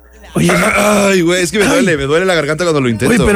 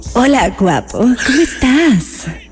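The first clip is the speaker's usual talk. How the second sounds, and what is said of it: Imitates another person's voice. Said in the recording (Spanish): “mi mejor imitación de Riva ... increíble imitación ... Está idéntica”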